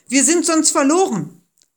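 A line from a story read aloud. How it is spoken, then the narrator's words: Shouted. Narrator (German): schrien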